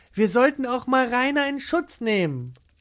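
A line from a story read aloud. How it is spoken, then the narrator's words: Calling out. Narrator (German): rief Gesine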